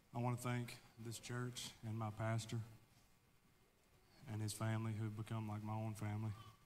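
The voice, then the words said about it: Nervous, teary, emotional voice. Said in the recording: “a little bit nervous ... a little bit teary-eyed ... I get kind of emotional”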